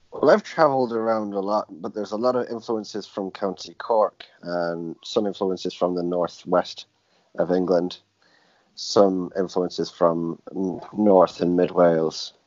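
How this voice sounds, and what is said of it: Lilting accent. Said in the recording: “I can hear a lilting accent.”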